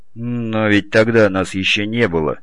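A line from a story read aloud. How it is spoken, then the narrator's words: Grumbling mutter. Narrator (Russian): буркнул Олег Борисович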